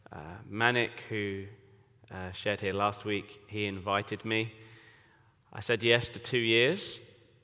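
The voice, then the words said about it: English accent. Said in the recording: “as you can tell from my accent, I am English”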